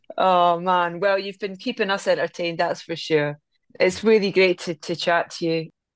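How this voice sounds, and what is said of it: Scottish accent. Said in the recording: “I'm from a little fishing village in Scotland called Anstruther on the east coast of Fife. ... what a lovely accent.”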